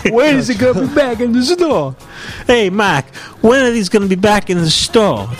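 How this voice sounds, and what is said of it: Put-on Saturday Night Fever-style accent. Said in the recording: “What accent is that? ... is that John Travolta? ... a Saturday Night Fever ... a little Saturday Night Fever”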